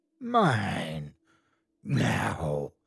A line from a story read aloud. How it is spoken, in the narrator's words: A voice rasped in my ear